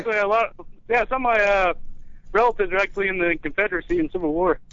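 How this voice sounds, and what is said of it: Southern US accent. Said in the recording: “With a southern accent ... With a southern accent, yeah.”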